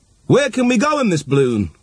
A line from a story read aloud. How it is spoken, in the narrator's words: cried the aristocrats